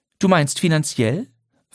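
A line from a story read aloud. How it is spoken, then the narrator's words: Calm question. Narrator (German): fragte Lydia ruhig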